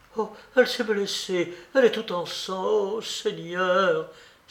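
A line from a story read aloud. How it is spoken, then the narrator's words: Exclaimed. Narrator (French): s'écria Sonia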